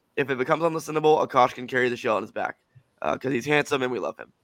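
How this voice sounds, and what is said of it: Hoarse, strained voice. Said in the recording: “my voice is a little shot, as you can tell ... I have a cough drop in”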